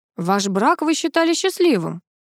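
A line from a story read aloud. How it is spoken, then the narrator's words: Plain. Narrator (Russian): спросил полковник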